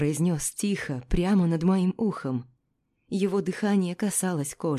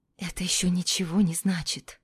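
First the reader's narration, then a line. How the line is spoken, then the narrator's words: Whisper. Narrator (Russian): прошептала я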